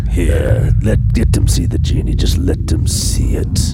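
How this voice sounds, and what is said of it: Russian or Eastern European accent. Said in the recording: “sound very Russian. Or at least like Eastern European ... Slavic.”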